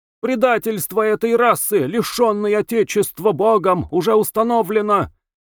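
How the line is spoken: Sharp shrill shouting man. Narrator (Russian): резко кричал, взвизгивая на высоких нотах, человек

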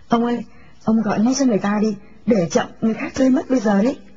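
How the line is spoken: Wife's gleeful urging. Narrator (Vietnamese): Bà vợ hớn hở thúc giục

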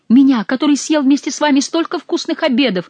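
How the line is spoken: Shouting through sobs. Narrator (Russian): выкрикивал он сквозь рыдание

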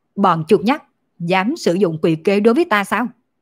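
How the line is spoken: Angry speech. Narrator (Vietnamese): Thánh quân giận dữ nói

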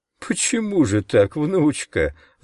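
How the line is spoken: Old man laughing. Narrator (Russian): рассмеялся дед

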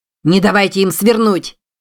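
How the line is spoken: Shouted. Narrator (Russian): крикнул Чарльз Эбу Вулнеру

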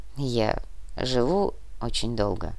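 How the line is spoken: Quiet. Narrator (Russian): тихо ответил Нур

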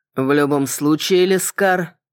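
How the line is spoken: Grim promise. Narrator (Russian): мрачно пообещал

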